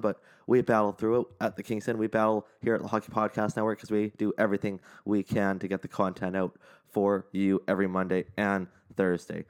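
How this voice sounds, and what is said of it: Strained voice, sore throat. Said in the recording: “sorry if the throat sounds a little weird today, if my voice sounds a little weird today, a little bit of a sore throat going on”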